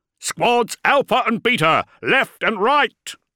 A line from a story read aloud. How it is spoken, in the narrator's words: roared Colonel Rothy